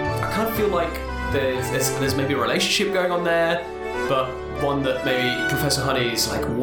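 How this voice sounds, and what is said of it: Usual voice. Nothing is said of it.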